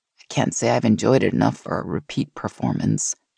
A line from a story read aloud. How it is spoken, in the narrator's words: she said dryly